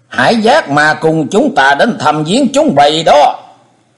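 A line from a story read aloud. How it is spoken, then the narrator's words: Shrill echoing voice. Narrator (Vietnamese): Giọng nói the thé vang lên giữa trời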